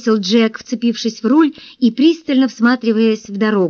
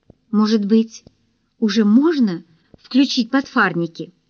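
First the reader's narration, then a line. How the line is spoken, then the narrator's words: Timid question. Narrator (Russian): Джинджер робко спросила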